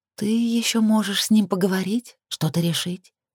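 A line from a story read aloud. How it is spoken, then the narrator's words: Soft suggestion. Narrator (Russian): мягким тоном предложила Лилит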